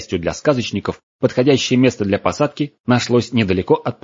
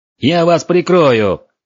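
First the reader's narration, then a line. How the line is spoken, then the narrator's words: Dragon shouting. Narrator (Russian): крикнул дракон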